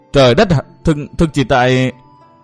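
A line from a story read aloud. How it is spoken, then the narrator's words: Choked sobbing. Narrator (Vietnamese): Nàng nghẹn ngào khóc thành tiếng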